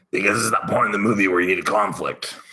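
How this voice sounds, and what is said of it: Impression of Mickey from Rocky. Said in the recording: “That was my impersonation of Mickey.”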